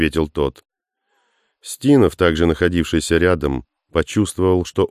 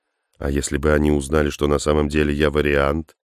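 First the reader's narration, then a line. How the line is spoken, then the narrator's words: Very quiet question. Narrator (Russian): очень тихо спросил Ом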